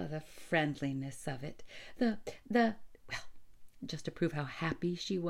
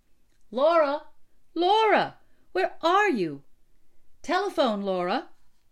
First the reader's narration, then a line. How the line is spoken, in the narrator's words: a voice cried from the house